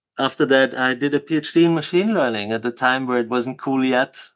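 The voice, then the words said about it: Austrian-accented English. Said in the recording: “mathematics in Austria, which you can hear from my Arnold Schwarzenegger accent”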